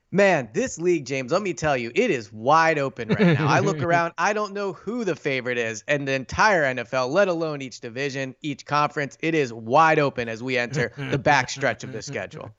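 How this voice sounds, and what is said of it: Polished national sports broadcaster voice. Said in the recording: “do my national hit voice”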